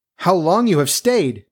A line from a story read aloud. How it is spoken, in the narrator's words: cried she, gaping